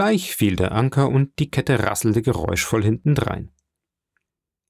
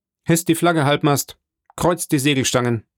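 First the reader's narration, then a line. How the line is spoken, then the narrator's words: Calling out. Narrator (German): rief er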